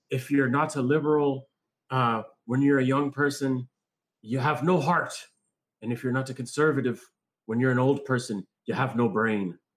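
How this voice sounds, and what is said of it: Bad put-on Irish accent. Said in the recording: “This is bad Irish accent.”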